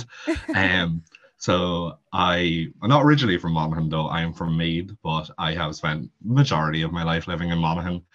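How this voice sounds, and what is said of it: Heavy Irish Monaghan accent. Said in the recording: “I am from Monaghan, if you can't tell by the heavy accent.”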